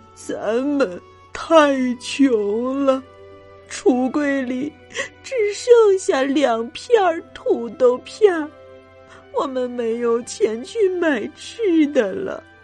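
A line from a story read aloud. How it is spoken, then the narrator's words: Sobbing. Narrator (Chinese): 妈妈哭起来，抽泣着说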